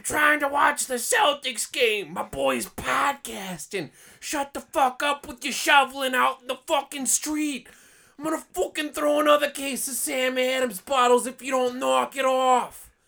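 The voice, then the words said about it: Put-on Boston accent, shouting. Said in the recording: “We're not from Boston. ... The boy loves his accent.”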